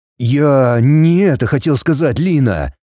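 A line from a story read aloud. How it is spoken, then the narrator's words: Weary groan. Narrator (Russian): Устало простонал он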